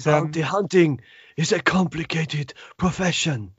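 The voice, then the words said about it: Sinister impression resembling Forest Whitaker. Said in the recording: “The way he talks just immediately sets you on edge ... your impression you just did sounded a lot like, what's his name in Rogue One? Forrest Whitaker.”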